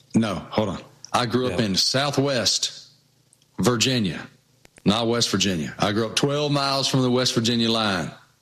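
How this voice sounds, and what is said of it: Regional American accent. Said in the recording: “you got a funny accent.”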